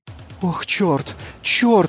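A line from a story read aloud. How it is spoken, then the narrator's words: Sobbing over comlink. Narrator (Russian): раздался из комлинка рыдающий голос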